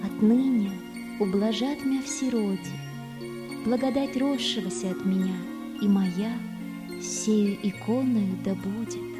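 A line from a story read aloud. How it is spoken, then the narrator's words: Quiet utterance. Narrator (Russian): Пресвятая Богородица тихо молвила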